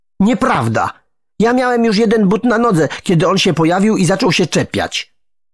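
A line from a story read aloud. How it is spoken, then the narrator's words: Indignant shout. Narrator (Polish): krzyknął oburzony Andrzej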